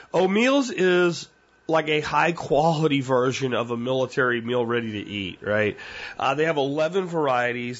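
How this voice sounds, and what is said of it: Weak voice from a cold. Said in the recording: “I still am dealing with this crud, cold crap, whatever it has been going on weeks now. And my voice is still a little weak”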